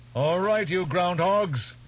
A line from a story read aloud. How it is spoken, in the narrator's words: Teg shouted